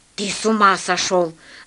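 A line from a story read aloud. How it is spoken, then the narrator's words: Guard's hiss. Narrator (Russian): зашипел на него третий стражник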